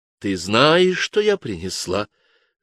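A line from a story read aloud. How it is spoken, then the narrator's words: Completely calm reply. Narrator (Russian): ответила совершенно спокойно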